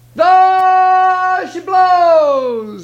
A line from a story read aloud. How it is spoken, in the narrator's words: he hollered